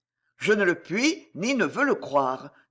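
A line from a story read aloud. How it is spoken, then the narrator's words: Firm voice. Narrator (French): dit Hugues d'une voix ferme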